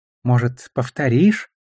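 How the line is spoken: Gentle request. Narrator (Russian): мягко попросил он

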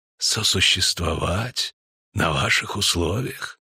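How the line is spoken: Changed but calm voice. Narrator (Russian): спросил он изменившимся, но все еще спокойным голосом

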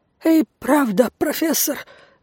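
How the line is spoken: Choked babbling. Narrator (Russian): залепетал он, держась рукой за горло

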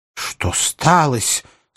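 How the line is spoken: Rather angry question. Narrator (Russian): спросил он довольно-таки сердито

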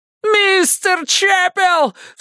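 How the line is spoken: Sharp cry. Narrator (Russian): вскрикнул Эванс еще раз

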